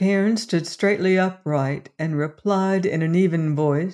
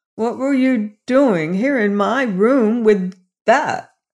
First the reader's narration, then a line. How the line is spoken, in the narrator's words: groaned Robert